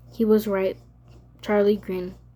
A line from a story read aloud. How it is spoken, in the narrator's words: she said